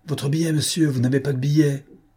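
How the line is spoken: Furious shout. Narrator (French): cria un employé d'un ton furieux

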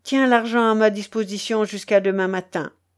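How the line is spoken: Curt. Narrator (French): dit Tchelkash d'une voix brève

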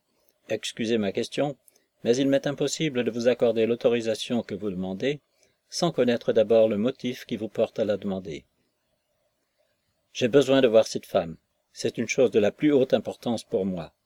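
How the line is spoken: Friendlier tone. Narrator (French): d'un ton plus aimable

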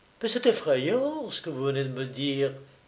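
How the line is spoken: Murmured. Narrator (French): murmura-t-elle

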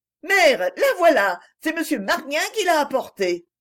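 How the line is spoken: Excited exclaiming. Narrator (French): s'écriait-elle

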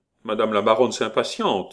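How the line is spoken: Gleeful mocking snicker. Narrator (French): ricana le marquis, heureux de railler

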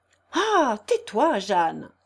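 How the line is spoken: Exclaiming. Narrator (French): s'écria Claudie

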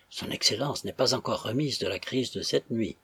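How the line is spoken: Murmuring. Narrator (French): murmura M

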